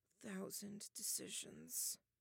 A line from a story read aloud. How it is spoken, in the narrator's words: Taylor mumbled